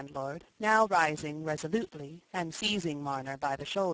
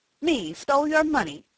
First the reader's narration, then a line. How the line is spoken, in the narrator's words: said Jem, angrily